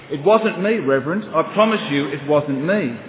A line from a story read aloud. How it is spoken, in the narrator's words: the boy looked rather shocked and quickly replied